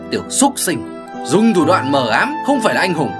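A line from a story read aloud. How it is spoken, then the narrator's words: Loud booming scolding. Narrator (Vietnamese): Đổ Cầu Ông mắng oang oang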